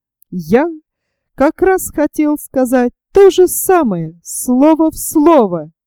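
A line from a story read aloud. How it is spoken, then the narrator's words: Exclamation. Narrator (Russian): воскликнул ёж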